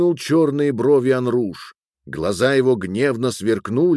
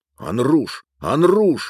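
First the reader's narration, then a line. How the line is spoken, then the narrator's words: Exclamation. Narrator (Russian): воскликнул Рукудж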